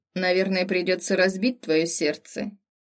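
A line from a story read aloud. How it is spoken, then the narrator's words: Smirking. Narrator (Russian): хмыкнул вновь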